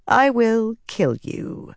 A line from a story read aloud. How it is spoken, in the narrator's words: Semirag said calmly